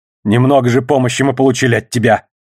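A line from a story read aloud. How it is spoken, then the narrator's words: Snapped. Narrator (Russian): огрызнулся грозотень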